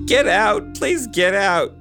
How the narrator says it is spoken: she pleaded

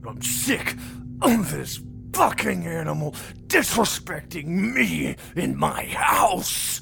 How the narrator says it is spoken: Carl snarled drunkenly

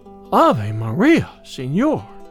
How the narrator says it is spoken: exclaimed, blushing still deeper with confusion and surprise

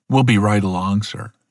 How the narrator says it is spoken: he said

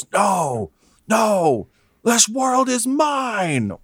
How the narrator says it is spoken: he yells

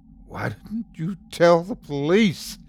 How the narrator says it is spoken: asked frantically

